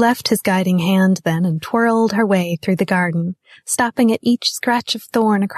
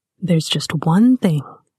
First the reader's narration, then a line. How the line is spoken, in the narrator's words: said, his voice close to her ear